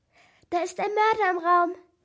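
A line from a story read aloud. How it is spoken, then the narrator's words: Agitated squeak. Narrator (German): piepste aufgewühlt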